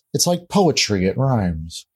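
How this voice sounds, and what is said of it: Terrible, higher-pitched imitation of another person. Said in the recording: “doing a terrible George Lucas impersonation ... that's a George Lucas impression ... I had to go a little bit higher ... he's a tenor”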